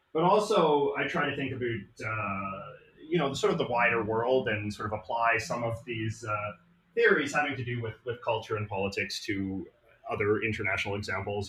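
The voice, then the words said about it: Canadian English accent. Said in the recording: “As you might be able to hear from my voice, I am from Canada. I'm from Vancouver, British Columbia.”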